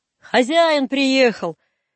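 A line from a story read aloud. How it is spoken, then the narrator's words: Shout. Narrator (Russian): крикнул дворник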